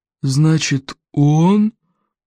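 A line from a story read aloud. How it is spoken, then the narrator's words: Group droning reply. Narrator (Russian): прогудели остальные в ответ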